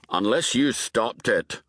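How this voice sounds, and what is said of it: Distinctive Scottish accent. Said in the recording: “The voice had a distinctive Scottish accent.”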